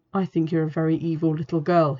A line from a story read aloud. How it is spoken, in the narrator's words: whispered